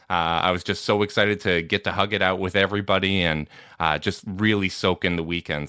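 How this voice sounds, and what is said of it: Strained voice, not fully recovered. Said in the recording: “you can tell my voice hasn't fully recovered from it yet”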